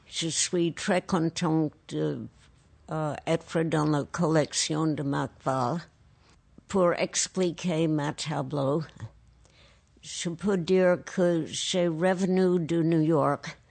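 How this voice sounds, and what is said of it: Foreign accent speaking French. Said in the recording (French): “J'habite à Paris depuis très longtemps, malgré mon accent.”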